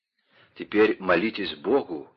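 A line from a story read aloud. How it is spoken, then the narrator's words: Whisper. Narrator (Russian): шепнул он своим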